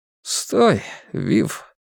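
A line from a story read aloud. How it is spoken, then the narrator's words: Quiet restraining command. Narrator (Russian): тихо остановил второй инквизитор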